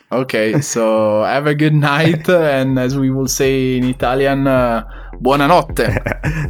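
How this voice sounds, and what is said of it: Non-native English accent, Italian speaker. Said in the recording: “the accent is something we cannot get rid of, but I'm working on my English”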